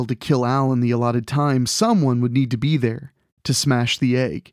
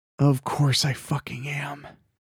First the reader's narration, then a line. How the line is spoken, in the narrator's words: he whispered